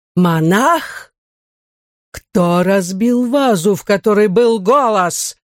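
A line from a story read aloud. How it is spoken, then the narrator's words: Furious roar. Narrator (Russian): взревел он, разъяренный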